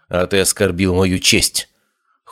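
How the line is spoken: Cold. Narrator (Russian): холодно ответила Хлоя

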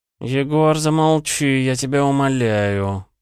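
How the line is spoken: Drawling. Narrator (Russian): протянул Лео

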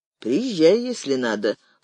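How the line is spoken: Dry reply. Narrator (Russian): сухо ответил Заславцев

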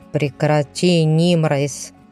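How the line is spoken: Irritated. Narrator (Russian): Раздраженно поморщился мужчина с головы до ног, закутанный в темные одежды

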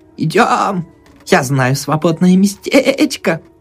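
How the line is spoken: Bleating laughter. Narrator (Russian): Проблеяла, смеясь

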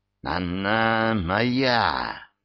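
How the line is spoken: Hissed. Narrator (Russian): прошипел он

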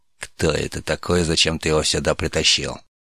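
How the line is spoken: Angry whisper. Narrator (Russian): Зло прошептал Тарш

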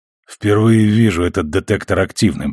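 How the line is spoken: Hoarse after coughing. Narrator (Russian): признался Миллер, еще похрипывая после приступа кашля

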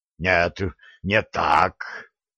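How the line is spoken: Hoarse werewolf rasp. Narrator (Russian): прохрипел оборотень

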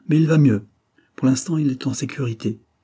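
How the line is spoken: Almost harsh. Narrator (French): continuai-je presque durement

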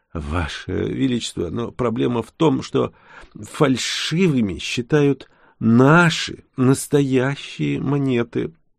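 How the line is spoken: Mumbled. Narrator (Russian): промямлил казначей

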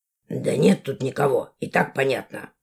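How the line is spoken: Gruff mutter. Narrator (Russian): буркнул он

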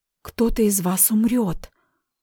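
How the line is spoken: Whispered. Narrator (Russian): прошептала я

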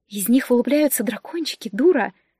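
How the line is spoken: Whisper from behind. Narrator (Russian): шепнул кто-то сзади

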